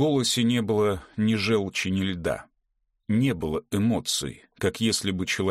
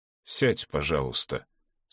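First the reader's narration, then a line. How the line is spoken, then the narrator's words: Quiet, fatherly. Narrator (Russian): сказал отец негромко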